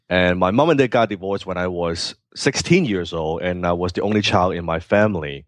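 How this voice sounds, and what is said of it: Hong Kong accent. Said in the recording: “I was born in Hong Kong, you can hear from my accent.”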